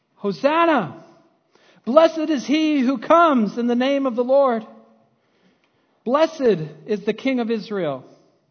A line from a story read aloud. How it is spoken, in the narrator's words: shouting